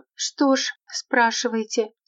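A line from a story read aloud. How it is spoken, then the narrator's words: Quiet young woman. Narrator (Russian): тихо проговорила молодая женщина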